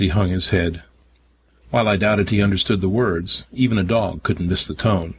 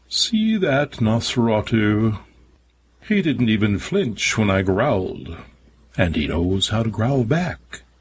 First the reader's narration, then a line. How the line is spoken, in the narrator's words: His voice dripping with derision, he said